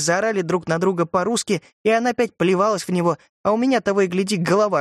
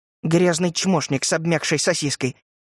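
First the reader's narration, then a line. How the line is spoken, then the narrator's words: Grumbling, growing quieter. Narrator (Russian): Ворчала она, но голос ее звучал уже тише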